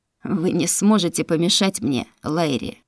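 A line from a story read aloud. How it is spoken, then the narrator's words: Mocking. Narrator (Russian): насмешливо произнес Шатаран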